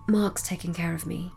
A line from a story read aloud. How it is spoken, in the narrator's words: Celeste murmured under her breath